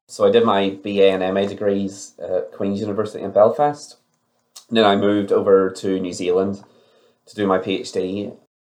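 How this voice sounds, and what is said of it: Irish accent. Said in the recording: “you can probably tell from my accent that I'm Irish”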